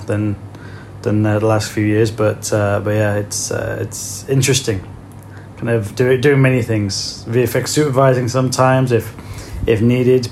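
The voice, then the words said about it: British accent. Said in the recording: “some people don't pick accents, but you're from the UK originally”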